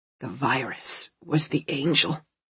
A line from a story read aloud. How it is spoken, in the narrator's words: he whispered